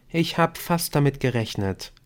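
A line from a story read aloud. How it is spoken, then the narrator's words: Plain. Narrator (German): sagte Emily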